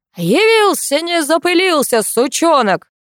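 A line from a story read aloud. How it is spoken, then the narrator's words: Loud. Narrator (Russian): громко произнес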